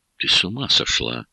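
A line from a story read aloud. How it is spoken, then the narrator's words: Shocked, forced out. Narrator (Russian): потрясенно выдавил я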